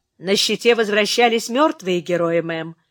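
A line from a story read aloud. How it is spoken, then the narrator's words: Grim joke. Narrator (Russian): мрачно пошутил Фрэнк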